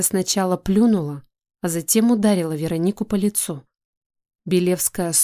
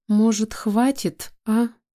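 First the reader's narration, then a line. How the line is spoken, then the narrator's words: Timid thin voice. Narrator (Russian): Робко прозвучал тонкий голос из толпы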